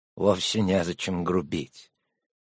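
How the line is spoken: Soft. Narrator (Russian): мягко произнес он

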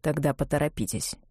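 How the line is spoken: Dry. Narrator (Russian): сказал он сухо

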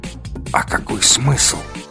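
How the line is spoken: Whisper. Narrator (Russian): прошептал тот, что пониже

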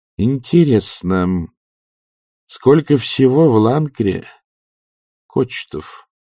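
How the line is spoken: Quiet. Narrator (Russian): тихо произнесла она

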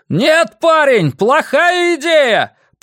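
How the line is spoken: Soldier shouting. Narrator (Russian): прокричал один из солдат

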